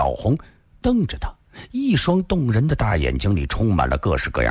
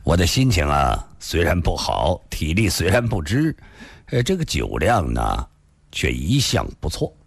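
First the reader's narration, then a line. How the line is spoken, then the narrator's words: Faint smile. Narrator (Chinese): 李寻欢淡淡地笑了笑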